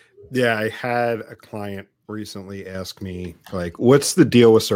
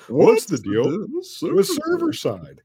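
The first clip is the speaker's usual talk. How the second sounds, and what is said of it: Imitates another person's voice. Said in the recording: “my terrible Jerry Seinfeld impression.”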